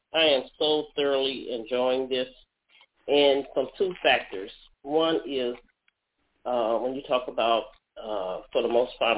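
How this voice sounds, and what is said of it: Slightly hoarse voice. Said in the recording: “I have a little cold, a little hoarse.”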